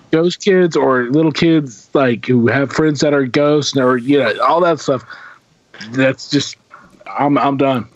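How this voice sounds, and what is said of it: Messed-up, strained voice. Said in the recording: “My voice is all kind of messed up right now.”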